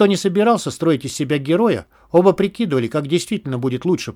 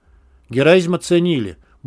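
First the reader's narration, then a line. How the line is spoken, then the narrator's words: Muttering. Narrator (Russian): буркнул Мякиш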